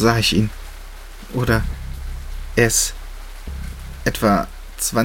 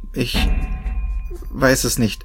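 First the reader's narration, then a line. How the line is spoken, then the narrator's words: Stammer. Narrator (German): stammelte ich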